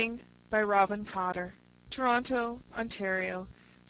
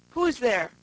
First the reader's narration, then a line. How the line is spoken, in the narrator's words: cried a gruff voice from within